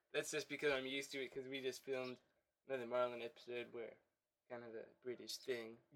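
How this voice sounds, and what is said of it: Nasal congested voice. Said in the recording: “you're kind of nasally, maybe? ... Yes. I will be nasally throughout the show. Now I'm going to go blow my nose.”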